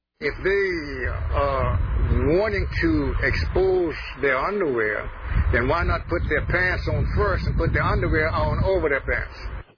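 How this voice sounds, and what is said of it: South Carolina accent. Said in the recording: “What accent is that? ... South Carolina. ... So that is a South Carolina accent.”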